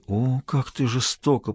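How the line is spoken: Moaning. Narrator (Russian): простонал он

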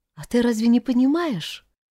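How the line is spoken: Sad, sighing reply. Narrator (Russian): Вздохнув, грустно ответила Таня

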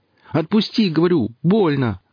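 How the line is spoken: Shouting. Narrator (Russian): крикнул Алексей

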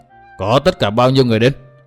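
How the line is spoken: Harsh, stressed words. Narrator (Vietnamese): Bà gằn giọng

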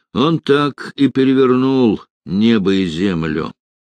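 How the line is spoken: Through gritted teeth. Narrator (Russian): процедил Невельской

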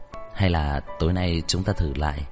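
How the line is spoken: Whisper in ear. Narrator (Vietnamese): Nam Liệt ghé sát vào tai của Hàn Mạc thì thầm

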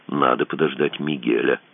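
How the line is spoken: Quiet. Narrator (Russian): сказал он тихо

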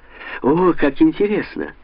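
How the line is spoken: Friendly shared laughter. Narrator (Russian): Оба засмеялись, словно старые гимназические друзья

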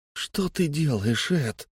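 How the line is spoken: Quiet wail. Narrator (Russian): тихо взвыл Фари

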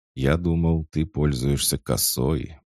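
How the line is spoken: Calm drawl. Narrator (Russian): протянул он, спокойно

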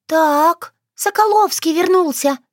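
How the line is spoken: Squeaked. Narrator (Russian): пискнула

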